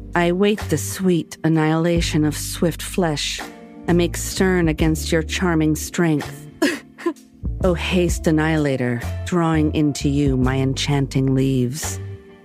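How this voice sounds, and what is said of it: Exaggerated sexy, sultry reading voice. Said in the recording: “She's got the sexy voice out... The sexy voice... I'll try my different sexy voices out... They might all sound the same.”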